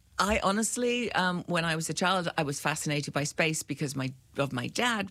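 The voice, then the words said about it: British accent. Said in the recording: “you are from the UK, as many people may have guessed from your accent”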